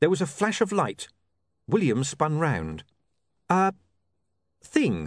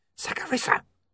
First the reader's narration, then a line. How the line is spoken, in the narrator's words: hissed William urgently